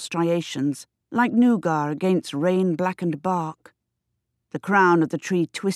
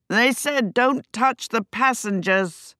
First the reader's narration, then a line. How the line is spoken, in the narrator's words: yelled through the rain